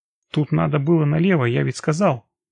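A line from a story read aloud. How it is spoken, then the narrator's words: Indignant interjection. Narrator (Russian): вмешался Анатолий Сергеевич, возмущенно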